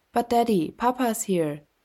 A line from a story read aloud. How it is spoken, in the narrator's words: Becky exclaimed